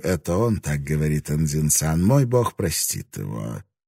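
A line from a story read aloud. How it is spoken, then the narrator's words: Sighing. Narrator (Russian): вздохнул и перевел абсолютно точно, добавив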